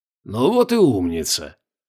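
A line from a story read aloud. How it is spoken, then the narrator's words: Happy wheezing. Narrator (Russian): радостно захрипел Хорькин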